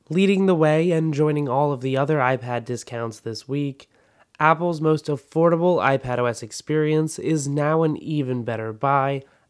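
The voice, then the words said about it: Slightly hoarse voice. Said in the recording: “my voice may be a little bit hoarse”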